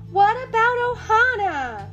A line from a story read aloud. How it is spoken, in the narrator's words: Lilo cried